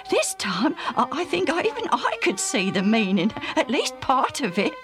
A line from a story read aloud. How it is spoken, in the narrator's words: Alf laughed